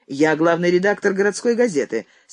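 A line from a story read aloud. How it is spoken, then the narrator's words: Angry. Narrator (Russian): сердито сказал Андрей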